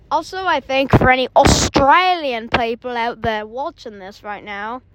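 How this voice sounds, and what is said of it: Put-on Australian accent. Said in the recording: “Sorry about that accent”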